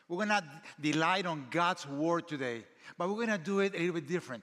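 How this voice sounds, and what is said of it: Speaker's noticeable foreign accent. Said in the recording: “My accent. There's nothing we can do about that.”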